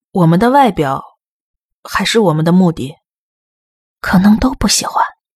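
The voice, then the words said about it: Quiet whispered speech. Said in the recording (Chinese): “爱丽丝小声说”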